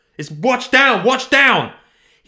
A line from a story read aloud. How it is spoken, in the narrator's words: shouted